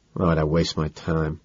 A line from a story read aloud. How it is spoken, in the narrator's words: mutter, disgusted